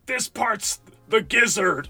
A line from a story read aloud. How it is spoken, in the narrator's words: scream